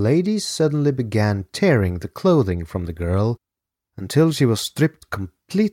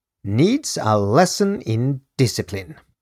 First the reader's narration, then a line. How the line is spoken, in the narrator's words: the Countess said testily